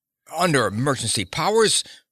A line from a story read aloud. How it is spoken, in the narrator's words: Mueller spluttered over it